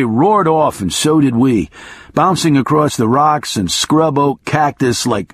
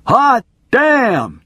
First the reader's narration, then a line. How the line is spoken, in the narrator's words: two of them screamed at once